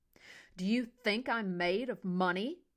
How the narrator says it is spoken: Henry roared

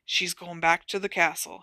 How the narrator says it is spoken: he said in a low voice

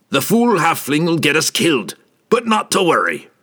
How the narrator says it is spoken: he grumbled sarcastically

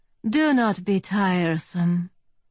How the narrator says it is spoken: I said with a sigh

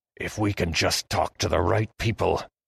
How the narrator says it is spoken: Heston whispered

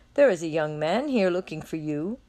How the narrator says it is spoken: laughing, he introduces

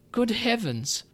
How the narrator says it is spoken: she cried

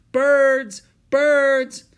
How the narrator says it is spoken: A boy shouted

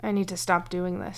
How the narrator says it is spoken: mumbled

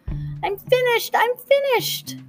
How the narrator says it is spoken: Beth Ellen got up suddenly and squeaked

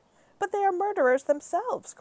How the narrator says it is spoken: cried the head of the Army

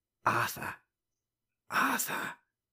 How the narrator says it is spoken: whispered an inexpressively peevish, rasping voice

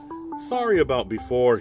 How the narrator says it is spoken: he chuckled nervously

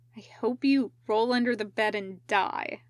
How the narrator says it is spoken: Ryoma told him bitterly

